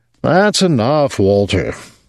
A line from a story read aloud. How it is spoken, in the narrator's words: Rudolph said wearily